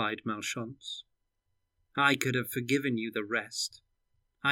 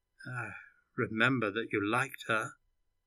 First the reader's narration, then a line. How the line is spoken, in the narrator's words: he said quietly